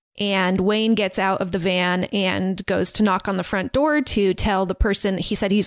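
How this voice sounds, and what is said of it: Slight Southern American accent. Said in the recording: “am I talking in like a slight Southern accent? ... that sounded a little bit ... I'm just getting into character.”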